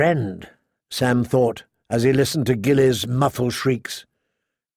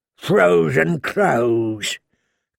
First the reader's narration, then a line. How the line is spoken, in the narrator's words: Craster sneered